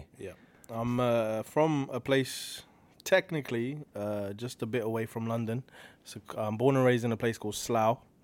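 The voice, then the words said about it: British accent. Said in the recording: “as we can tell from the accent, you are from the UK”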